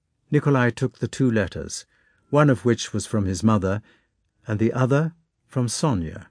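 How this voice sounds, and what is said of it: Usual voice. Nothing is said of it.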